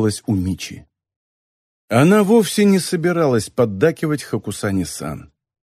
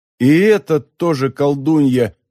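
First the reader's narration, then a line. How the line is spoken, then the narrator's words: Inner groan. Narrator (Russian): мысленно простонала Мичи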